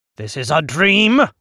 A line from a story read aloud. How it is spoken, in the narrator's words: I shout at the globe